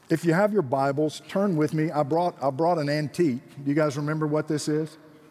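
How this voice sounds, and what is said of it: Georgian Southern American accent. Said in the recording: “my Georgian accent”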